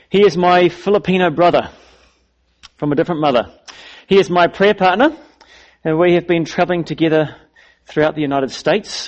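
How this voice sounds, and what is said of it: Foreign, non-US accent. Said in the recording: “my foreign accent that I don't come from the US”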